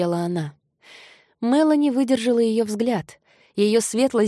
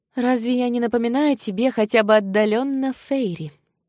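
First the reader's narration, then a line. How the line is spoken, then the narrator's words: Plain. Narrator (Russian): спросила Мелани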